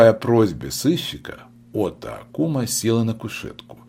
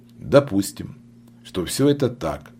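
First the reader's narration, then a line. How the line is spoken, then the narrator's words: Calm agreement. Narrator (Russian): спокойно согласился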